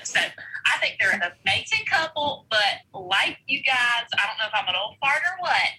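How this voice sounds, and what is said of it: Cute regional accent. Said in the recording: “The cutest accent.”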